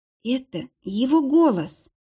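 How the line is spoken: Whisper. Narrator (Russian): прошептала Лиза

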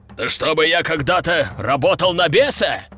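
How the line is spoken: Demon's roar. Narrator (Russian): взревел демон-сокрушитель

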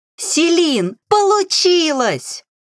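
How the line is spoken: Joyful shouting, young witches. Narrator (Russian): кричали ведьмочки, радостно

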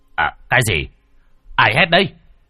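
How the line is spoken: Startled groggy mumble. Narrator (Vietnamese): gã Tam Quỷ giật mình thức giấc, ú ớ hỏi

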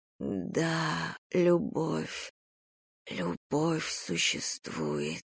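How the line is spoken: Whisper. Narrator (Russian): прошептал мне ветер

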